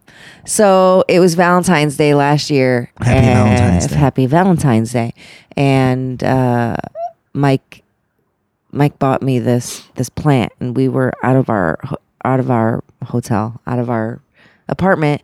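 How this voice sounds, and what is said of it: Creaky, croaky voice. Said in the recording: “You sound like a door right now. ... I feel like ... a door. ... You sound like a spooky Halloween door.”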